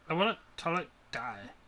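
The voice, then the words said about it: Valley girl voice. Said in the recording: “Why do you sound like a valley girl?”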